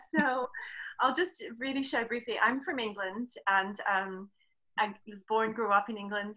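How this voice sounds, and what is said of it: Slight foreign accent. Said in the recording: “you have a bit of an accent.”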